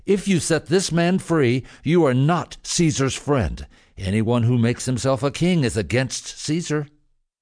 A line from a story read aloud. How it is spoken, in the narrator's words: the Jewish leaders continued to yell